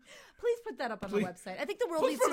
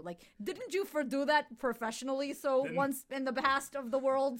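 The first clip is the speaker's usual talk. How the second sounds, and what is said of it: Weak put-on old-school Jewish accent. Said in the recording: “I just sounded old school Jew ... your impression of a Jew sounds less Jewish than you just being yourself”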